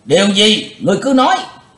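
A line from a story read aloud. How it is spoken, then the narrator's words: Crowd shouting together. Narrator (Vietnamese): Cả tràng đồng quát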